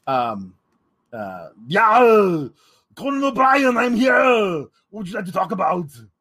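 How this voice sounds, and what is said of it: Arnold Schwarzenegger impression. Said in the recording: “doing an impression of whoever did the impression of Arnold on Conan O'Brien back in the mid-aughts”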